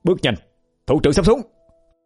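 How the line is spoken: Barked order. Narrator (Vietnamese): Hà quát lên

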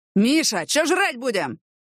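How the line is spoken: Rough male bark, close. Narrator (Russian): рявкнул грубый мужской голос фактически над ухом Яны

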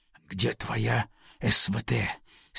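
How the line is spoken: Hissing whispered question. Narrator (Russian): Свистящим шепотом спросил

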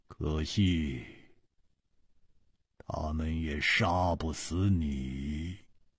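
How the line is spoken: Icy cold voice. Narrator (Chinese): 他的声音冰冷，接着说

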